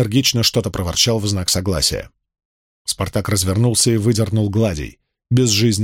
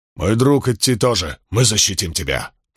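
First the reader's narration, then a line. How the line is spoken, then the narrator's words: Growled. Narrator (Russian): прорычал скиф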